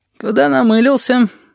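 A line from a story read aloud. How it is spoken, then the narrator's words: Sleepy dead man. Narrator (Russian): сонно спрашивает мертвец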